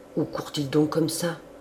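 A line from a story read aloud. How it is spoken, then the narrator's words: Murmured by an old servant. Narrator (French): murmura la vieille servante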